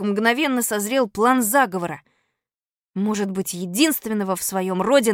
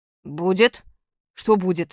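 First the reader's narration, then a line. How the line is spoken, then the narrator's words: Utterly indifferent question. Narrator (Russian): спросил Костя совершенно равнодушным голосом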